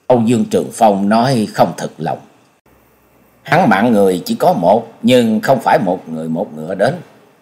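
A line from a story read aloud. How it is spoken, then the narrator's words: Muttering. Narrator (Vietnamese): Nhậm Sương Bạch lắc đầu lẩm bẩm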